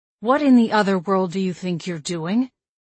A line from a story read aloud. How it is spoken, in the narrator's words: I growled